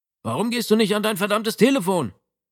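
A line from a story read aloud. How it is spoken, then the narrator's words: Annoyed call. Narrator (German): rief Matteo Savio, sein Kollege vom Polizeiposten, verärgert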